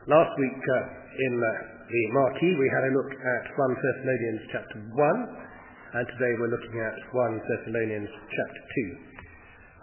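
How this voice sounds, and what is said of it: Rough voice with heavy cold. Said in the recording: “my voice is even worse than usual. I pick up a stonking cold during the week... this very heavy cold”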